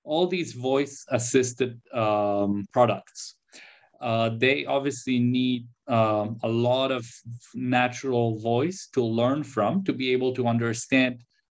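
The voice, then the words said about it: Polish Canadian accent. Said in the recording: “my Polish Canadian, who knows where from accent”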